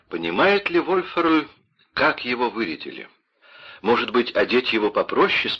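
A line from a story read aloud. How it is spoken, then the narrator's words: Plain question, mother. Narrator (Russian): спросила мама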